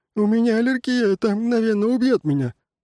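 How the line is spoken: Sobbing. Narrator (Russian): он зарыдал

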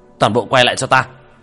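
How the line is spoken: Hasty urgent shout. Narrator (Vietnamese): Tiểu Thất vội vàng quát

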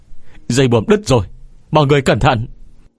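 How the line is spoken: Terrified scream. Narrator (Vietnamese): có người kinh hãi hét lên

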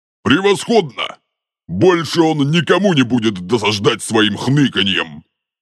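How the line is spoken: Giant's growl. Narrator (Russian): прорычал великан

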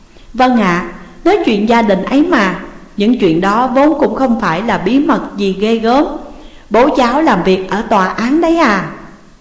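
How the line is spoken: Gentle, polite. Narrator (Vietnamese): nhẹ nhàng nói

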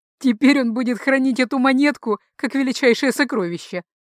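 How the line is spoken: Chuckling. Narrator (Russian): хохотнул Антонио

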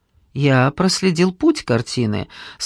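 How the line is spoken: Calm. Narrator (Russian): спокойно сказал Алекс

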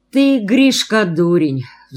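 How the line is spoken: Sighing. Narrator (Russian): вздохнул Ермак

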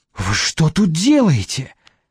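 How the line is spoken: Angry hiss. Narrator (Russian): зло прошипела медсестра

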